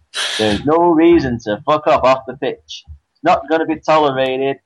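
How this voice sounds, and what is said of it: Put-on American Texan accent. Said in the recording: “I'll probably try and say it in my best American accent ... That's assuming that he's from Texas.”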